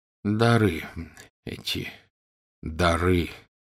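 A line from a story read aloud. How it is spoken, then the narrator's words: Muttering. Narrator (Russian): пробормотал Дамблдор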